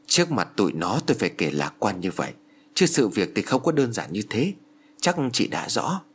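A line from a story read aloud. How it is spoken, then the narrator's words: Very quiet. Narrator (Vietnamese): bà giáo Thái nói rất khẽ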